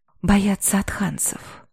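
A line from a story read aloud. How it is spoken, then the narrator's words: Whisper in ear. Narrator (Russian): шепнул на ухо Рах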